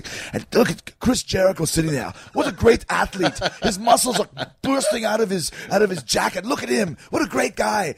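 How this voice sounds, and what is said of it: Imitates another person's voice. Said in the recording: “that bad Arnold impersonation”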